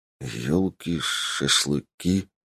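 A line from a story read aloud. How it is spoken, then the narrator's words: Mumbled. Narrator (Russian): пробормотал я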